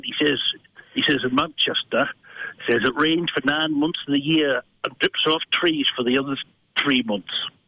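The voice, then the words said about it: Put-on Yorkshire accent. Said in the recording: “That was more of a Yorkshire accent, actually.”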